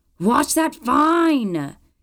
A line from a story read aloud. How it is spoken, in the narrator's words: she shouted